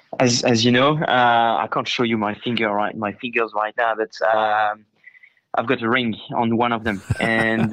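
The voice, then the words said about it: French accent. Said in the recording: “with that French accent”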